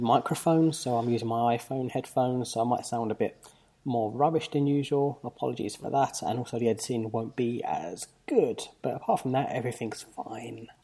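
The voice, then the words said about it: Hoarse, fading voice. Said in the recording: “I'm kind of losing my voice.”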